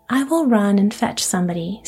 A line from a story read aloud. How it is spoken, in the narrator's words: said Rose Red